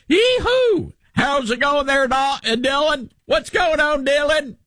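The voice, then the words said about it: Exaggerated Southern US accent. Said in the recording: “I have a Southern accent, but you're like”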